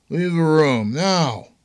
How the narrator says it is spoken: Troy shouted

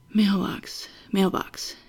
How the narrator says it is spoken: he muttered to himself

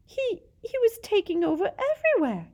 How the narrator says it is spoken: gasped Pettigrew

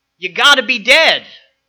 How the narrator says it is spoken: 4-year-old Bobby shouted

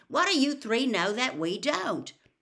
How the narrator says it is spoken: said Ron irritably

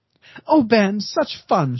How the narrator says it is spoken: said, laughing

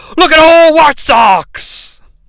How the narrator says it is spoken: JR, actually pretty funny here, yells

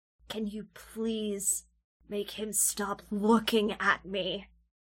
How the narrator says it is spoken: Nezumi Vi hisses

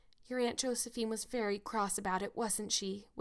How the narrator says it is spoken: whispered Anne

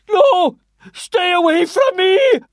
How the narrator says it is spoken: he let out a long, hysterical howl of terror

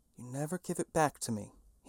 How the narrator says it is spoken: he whispered

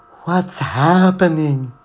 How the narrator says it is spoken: She wailed

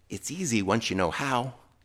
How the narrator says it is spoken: the guy whispered back

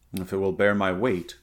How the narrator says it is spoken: grunted Conan

